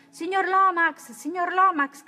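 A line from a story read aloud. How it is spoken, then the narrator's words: Shouting. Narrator (Italian): gridò Calvin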